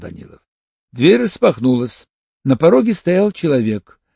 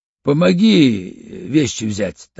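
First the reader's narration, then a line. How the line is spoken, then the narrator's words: Calm. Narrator (Russian): так же спокойно сказал Банин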